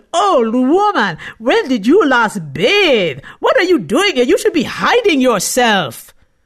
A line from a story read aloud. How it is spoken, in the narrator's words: held her nose, and shouted